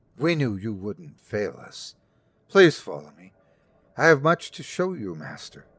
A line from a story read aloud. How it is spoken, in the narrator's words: he said